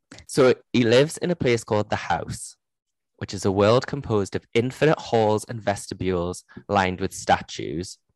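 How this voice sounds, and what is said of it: Geordie accent. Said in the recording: “my Geordie accent”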